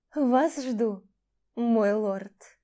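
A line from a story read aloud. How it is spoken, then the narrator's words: Languid purr. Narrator (Russian): Томно промурлыкала миледи Гарнус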